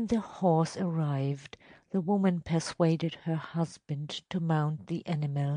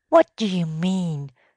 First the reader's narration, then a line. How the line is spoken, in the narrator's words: demanded his wife angrily